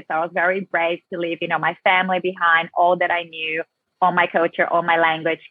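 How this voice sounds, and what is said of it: Brazilian South American accent. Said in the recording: “Brazil. Can get that accent of yours ... I have that South American Latina flavor in me very strongly”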